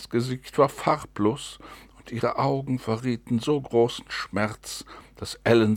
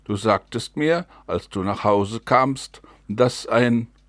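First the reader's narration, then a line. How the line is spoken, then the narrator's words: Shout. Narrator (German): rief Mary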